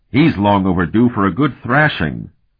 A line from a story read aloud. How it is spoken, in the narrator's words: Curic growled